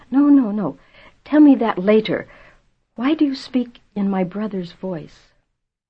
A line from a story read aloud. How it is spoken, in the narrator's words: His voice was strained